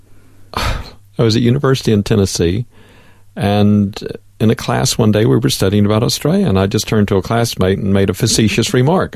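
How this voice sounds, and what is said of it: Non-local North American accent. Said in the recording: “you have a wonderful accent that's not from around these parts”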